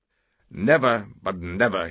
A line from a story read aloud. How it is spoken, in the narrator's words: he said